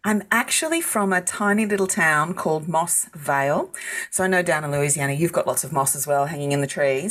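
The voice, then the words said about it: Australian accent. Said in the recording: “that is not a Ville Platt accent that they are hearing. What part of Australia are you from?”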